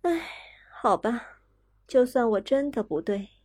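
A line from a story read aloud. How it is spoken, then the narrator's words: Sighing. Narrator (Chinese): 公爵夫人叹了口气，说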